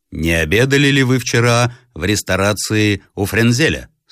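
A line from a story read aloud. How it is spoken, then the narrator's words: Plain question. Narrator (Russian): спросил он наконец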